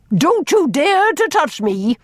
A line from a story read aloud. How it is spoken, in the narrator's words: almost shouted